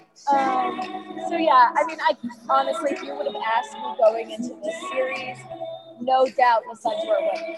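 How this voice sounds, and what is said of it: Strained, hoarse voice. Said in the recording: “I'm losing my voice. I'm sorry. It's so loud.”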